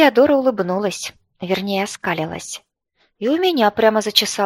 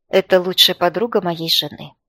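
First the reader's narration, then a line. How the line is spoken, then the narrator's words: Gloomy. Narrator (Russian): произнес Люд мрачно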